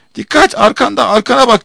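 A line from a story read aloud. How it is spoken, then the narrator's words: Shouting. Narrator (Turkish): diye bağırdı Darzi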